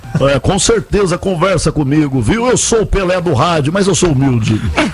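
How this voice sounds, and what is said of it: Imitates another person's voice. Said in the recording (Portuguese): “eu posso conversar com o Milton imitação”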